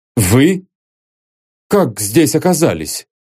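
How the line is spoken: Awkward forced words. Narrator (Russian): глупо выдавил из себя

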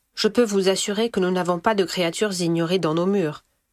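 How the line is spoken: Hammered, final tone. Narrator (French): martela Madame Maxime d'une voix sans appel

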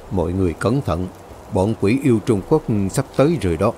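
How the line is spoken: Soft warning. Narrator (Vietnamese): Đạo sư Ngũ Lộ liền quay ra, khẽ nói với mọi người ở đó

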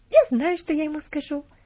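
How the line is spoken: Sudden inspired exclamation. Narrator (Russian): воскликнула она с неожиданным вдохновением

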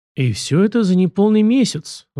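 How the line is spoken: Sigh. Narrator (Russian): вздохнул жандарм

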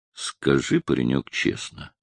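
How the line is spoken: Calm. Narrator (Russian): начал он спокойно

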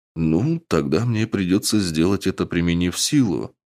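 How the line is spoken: Calm reply. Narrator (Russian): спокойно ответил вампир

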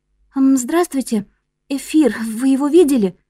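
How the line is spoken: Trembling voice. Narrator (Russian): спросила Чон Мин дрожащим голосом

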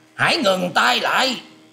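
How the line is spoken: Loud shout. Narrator (Vietnamese): Thiếu Dương đạo nhân quát to lên rằng

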